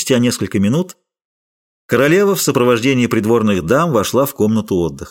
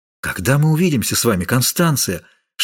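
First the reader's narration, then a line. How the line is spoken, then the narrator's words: Whispered. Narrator (Russian): шептал Д'Артаньян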